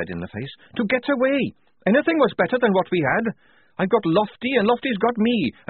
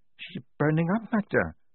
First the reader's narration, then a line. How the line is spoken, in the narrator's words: said Lofty quietly